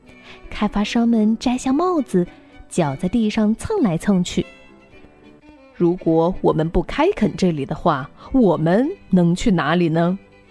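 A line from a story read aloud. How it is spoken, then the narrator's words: Plain. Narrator (Chinese): 他们问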